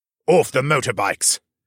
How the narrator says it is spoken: the soldier said gruffly

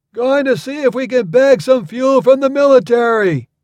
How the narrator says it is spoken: shouted, getting farther away

